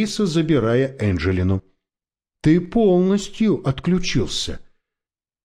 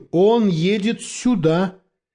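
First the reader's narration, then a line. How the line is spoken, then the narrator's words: Screaming. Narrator (Russian): завопил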